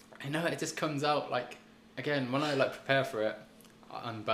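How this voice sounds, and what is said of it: Usual voice. Nothing is said of it.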